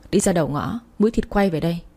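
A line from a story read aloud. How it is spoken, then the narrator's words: Angry husband shouting. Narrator (Vietnamese): chồng tôi trợn mắt lên quát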